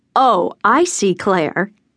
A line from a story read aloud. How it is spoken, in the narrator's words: my mother Maura said sarcastically